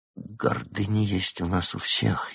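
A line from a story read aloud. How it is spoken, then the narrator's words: Barely audible, consoling. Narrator (Russian): еле слышно утешил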